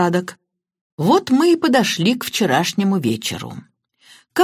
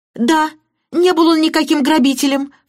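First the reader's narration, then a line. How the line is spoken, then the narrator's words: Cried out. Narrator (Russian): вскрикнула мисс Баннер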